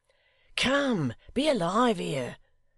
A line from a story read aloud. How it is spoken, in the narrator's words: cried Hugh